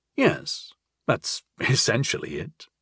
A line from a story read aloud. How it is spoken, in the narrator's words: I chuckled